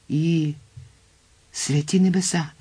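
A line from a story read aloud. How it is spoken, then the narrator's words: Exclamation. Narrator (Ukrainian): вигукнув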